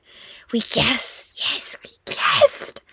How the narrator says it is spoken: he whispered

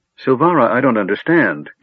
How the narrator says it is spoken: Gilfinus cried

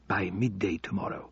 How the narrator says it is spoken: whispered Al-Obeidi

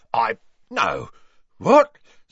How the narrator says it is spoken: spluttered Mundungus, who was turning slowly purple

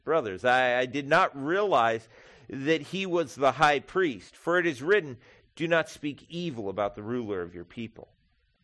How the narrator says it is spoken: called out in the Sanhedrin

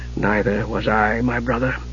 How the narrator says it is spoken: Raistlin said softly

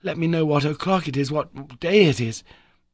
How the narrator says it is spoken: I cried

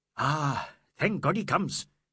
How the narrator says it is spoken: the inspector exclaimed

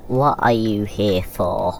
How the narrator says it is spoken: He slurred in earnest

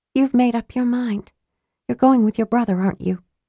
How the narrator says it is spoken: she said softly

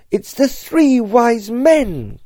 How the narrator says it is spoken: cried Mrs

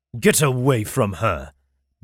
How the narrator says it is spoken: Darren roared

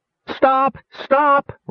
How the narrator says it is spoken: Rainspot pleaded tearfully

